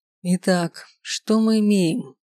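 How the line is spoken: Thoughtful mutter. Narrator (Russian): задумчиво пробормотал Рейер

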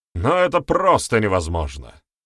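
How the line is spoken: Shouting elder. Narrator (Russian): выкрикнул старший

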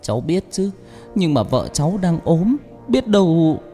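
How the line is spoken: Trembling voice. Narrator (Vietnamese): Chồng Thoa nói bằng giọng run run

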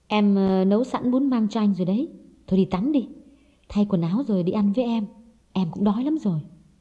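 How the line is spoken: Soft, gentle voice. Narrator (Vietnamese): Hồng nhỏ nhẹ nói

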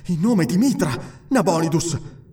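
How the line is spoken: Shaken, panting. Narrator (Italian): ansimò scosso

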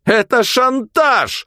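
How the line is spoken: Yelled. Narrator (Russian): заорал он

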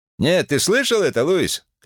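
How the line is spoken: Shouting. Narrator (Russian): крикнул

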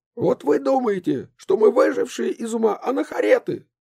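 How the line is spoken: Shouting mother. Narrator (Russian): закричала мама

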